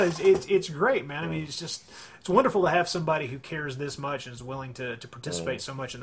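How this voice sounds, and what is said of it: Usual voice. Nothing is said of it.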